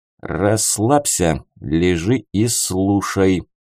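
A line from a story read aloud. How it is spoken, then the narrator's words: Stern command. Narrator (Russian): строго приказал я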